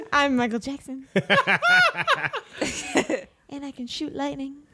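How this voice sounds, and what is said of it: Soft voice, imitates another person's voice. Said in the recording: “You're Michael Jackson? ... I like your soft voice that you did there.”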